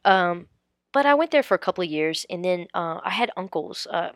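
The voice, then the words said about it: Very thick Tennessee hill accent. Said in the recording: “my accent coming from the hills in Tennessee, I'm very, very thick accent, very hard to understand”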